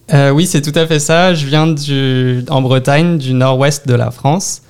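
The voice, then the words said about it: French-from-France accent. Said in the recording (French): “ça s'entend probablement, mais euh, tu as un accent français”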